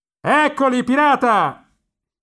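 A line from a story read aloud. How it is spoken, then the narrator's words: Old man shouting through cupped hands. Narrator (Italian): gridava con le mani a imbuto sulla sua vecchia faccia di ladro, uno dei trasteverini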